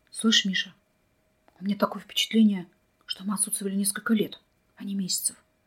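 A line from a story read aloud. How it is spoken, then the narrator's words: Whispered. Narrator (Russian): почему-то шепотом проговорил Вадим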